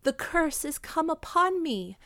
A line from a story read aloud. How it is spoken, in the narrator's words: cried the Lady of Shalott